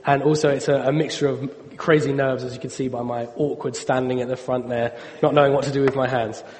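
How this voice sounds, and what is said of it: Voice roughened by a cold. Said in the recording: “excuse my voice. I have a bit of a cold ... So you'll have to excuse my voice.”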